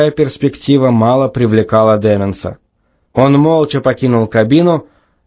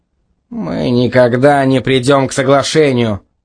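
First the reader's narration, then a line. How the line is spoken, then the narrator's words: Grumble. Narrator (Russian): проворчал Демонс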